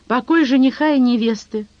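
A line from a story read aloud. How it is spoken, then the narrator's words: Snorting. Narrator (Russian): хмыкнул он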